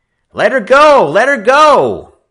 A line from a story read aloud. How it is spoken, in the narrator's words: Frisco Kid shouted